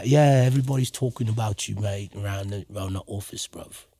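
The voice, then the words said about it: Put-on British accent. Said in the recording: “She just breaks out into the British accent every once in a while. ... It's a good British accent”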